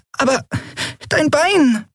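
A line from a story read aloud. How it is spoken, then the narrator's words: Squeaking. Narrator (German): piepste Nelen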